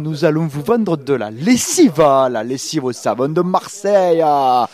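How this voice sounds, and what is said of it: Exaggerated fake Marseille accent. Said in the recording (French): “Tu fais juste l'accent, c'est qui m'agace quand je le vois dans la publicité ... personne qui parle avec un accent comme ça à Marseille ... l'accent marseillais mal refait”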